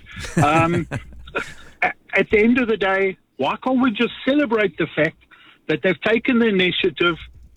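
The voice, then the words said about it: New Zealand accent. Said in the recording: “I'm judging by your accent ... I'm a New Zealand citizen”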